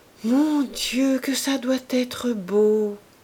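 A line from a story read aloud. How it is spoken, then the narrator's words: Sighing wistfully. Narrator (French): laissa échapper Madame Coreur avec un soupir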